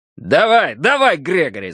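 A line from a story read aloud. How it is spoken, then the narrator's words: Shouting. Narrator (Russian): закричал он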